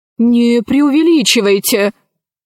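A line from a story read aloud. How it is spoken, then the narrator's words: Angry reply. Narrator (Russian): сердито отозвался археолог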